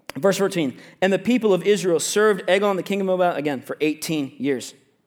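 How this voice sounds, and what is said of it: Reading aloud very fast. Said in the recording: “read this very fast, ... if I'm reading too fast”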